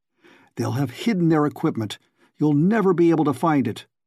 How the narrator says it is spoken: Allison said desperately

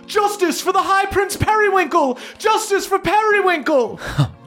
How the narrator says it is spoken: shouts from the crowd of all of these blue dragon elves shouting out

